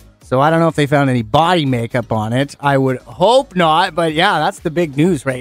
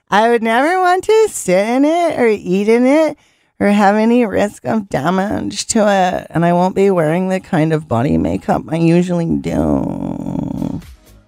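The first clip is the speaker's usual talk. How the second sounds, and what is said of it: Imitates another person's voice. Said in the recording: “my best impression”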